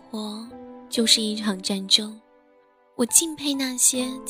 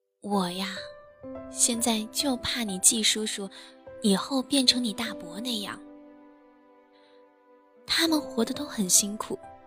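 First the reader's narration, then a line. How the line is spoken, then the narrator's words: Sighing father. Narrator (Chinese): 老爸叹了口气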